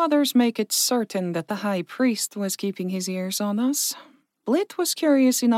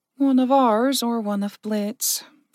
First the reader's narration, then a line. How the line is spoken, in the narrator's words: Verka sighed